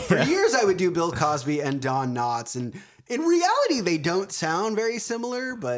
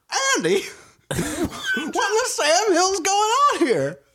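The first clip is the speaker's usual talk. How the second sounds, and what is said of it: Don Knotts impression. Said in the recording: “your Don Knotts impression ... that's a pretty good ... Don Knotts”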